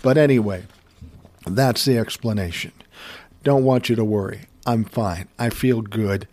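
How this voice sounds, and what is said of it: Lower, slightly congested voice. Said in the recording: “I sound a little different ... Maybe I sound like I have a lower voice, like a real announcer ... a runny nose ... The scratchy throat”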